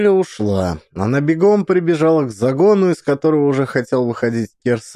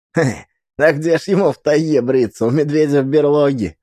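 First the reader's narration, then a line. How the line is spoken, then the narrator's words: Laughing boy. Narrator (Russian): засмеялся пацан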